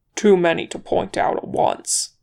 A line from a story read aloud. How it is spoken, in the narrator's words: he growled